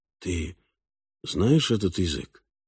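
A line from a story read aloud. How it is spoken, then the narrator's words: Whisper. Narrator (Russian): Фальк шепнул Оре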